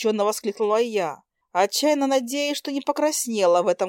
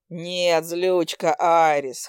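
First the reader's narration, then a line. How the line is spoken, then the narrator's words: Snorting, wry. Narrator (Russian): хмыкнул он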